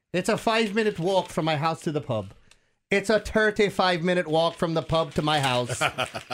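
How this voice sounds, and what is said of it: Put-on Irish accent. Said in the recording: “do this in an Irish accent.”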